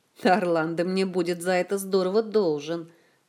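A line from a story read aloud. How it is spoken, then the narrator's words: Grumbling. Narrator (Russian): проворчал Кантор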